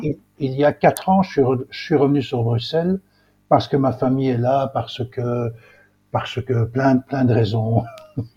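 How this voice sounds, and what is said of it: Belgian French accent. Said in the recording (French): “d'accent belge, évidemment ... c'est un bel accent”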